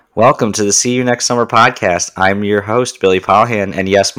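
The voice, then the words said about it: Deeper than usual voice. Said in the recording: “my voice is deeper. I have a cold”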